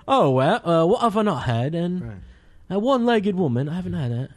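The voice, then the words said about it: Poor put-on Liverpudlian accent. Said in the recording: “It's a terrible Liverpudlian accent.”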